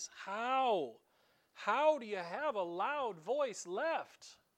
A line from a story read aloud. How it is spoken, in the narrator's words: Jesus cried out with a loud voice